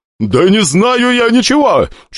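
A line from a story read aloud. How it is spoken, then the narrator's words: Shouted, near tears. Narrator (Russian): чуть не плача крикнул в ответ старатель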